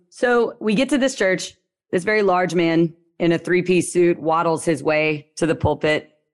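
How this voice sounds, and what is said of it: Low, slow Louisiana accent. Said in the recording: “I'm from Louisiana. The accent I have is a lot lower and slower.”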